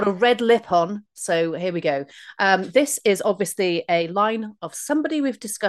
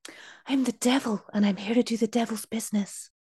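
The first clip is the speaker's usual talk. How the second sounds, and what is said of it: Whispery impression of an actor. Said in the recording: “in the wrong person's accent ... your impression was very good ... I thought it was rubbish, but it's whispery”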